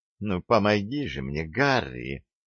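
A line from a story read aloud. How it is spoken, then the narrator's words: Purring female voice. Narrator (Russian): промурлыкала она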